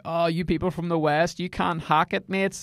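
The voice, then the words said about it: A put-on accent. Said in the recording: “That's not the Rwandan accent, but sure, we'll go with it.”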